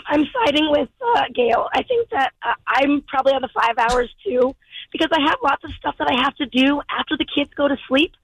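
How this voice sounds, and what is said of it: Strained voice, losing her voice. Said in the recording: “I'm losing my voice. ... I've been screaming at kids probably all week long.”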